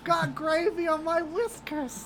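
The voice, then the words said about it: Silly furry character voice. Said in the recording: “in a furry costume voice”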